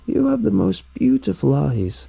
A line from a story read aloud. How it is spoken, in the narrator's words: croaked the old woman